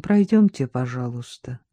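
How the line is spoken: Slightly muffled voice. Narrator (Russian): какой-то человек в штатском, сказал глуховатым голосом

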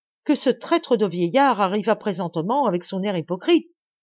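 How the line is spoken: Weeping cry. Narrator (French): s'écria mon frère en pleurant

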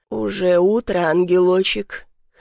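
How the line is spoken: Hoarse, pleased voice. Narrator (Russian): Хриплый голос над головой звучал довольно

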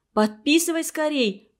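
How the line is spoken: Shouted. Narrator (Russian): крикнула Аня с места

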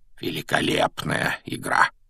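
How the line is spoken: Quiet aside. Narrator (Russian): Негромко, чтобы его мог слышать только Гарри, произнес Дамблдор

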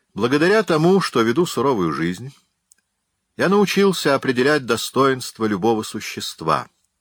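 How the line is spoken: Dry reply. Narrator (Russian): сухо ответил Бофор

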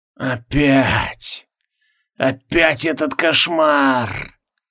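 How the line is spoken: Weak groan. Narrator (Russian): Слабо простонал Бестельгласуд

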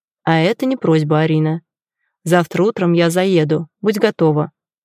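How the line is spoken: Curt and dry. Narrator (Russian): сухо бросает

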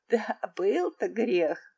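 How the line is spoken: Old man laughing. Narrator (Russian): рассмеялся старый граф

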